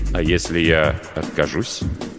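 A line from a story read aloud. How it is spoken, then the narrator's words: Quiet question. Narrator (Russian): тихо спросил Маркус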